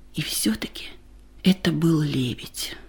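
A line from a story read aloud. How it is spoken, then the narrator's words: Whisper. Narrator (Russian): прошептала Ада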